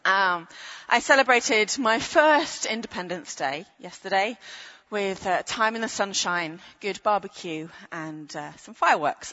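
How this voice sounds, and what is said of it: British accent. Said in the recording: “even with a British accent ... As a Brit,”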